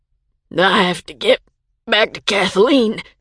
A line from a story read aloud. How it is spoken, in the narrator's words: he mumbled